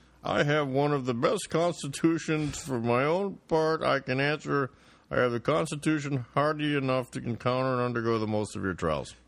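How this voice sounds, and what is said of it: George Washington impression. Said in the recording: “That's a very good George Washington. How did you know how to do his voice so perfectly?”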